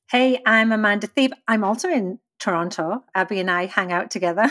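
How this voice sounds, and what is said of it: Thick English accent. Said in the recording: “I'm English. And apparently my accent's way thicker than ... was expecting.”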